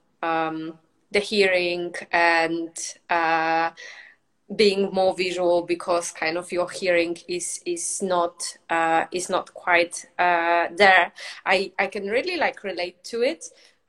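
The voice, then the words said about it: Non-native foreign accent in English. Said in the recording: “I was a foreign person in the UK ... obviously I have an accent ... you have an accent, like you're not native”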